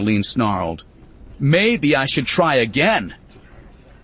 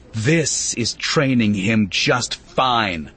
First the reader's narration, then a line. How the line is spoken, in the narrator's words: Annaline growled